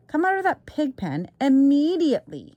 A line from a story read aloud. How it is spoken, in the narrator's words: cried Mrs